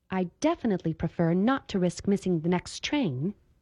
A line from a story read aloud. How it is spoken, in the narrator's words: Esther answered sharply